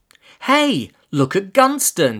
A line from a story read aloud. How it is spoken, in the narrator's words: squealed in a way that could surely make anyone physically sick